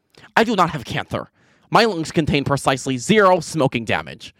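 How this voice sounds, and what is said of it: Imitates another person's voice. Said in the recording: “in my Andrew Tate impression.”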